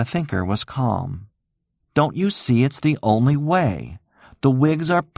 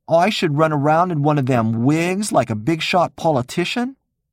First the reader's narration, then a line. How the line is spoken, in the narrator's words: Nunzio scoffed